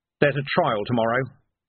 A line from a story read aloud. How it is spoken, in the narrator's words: said Vimes sharply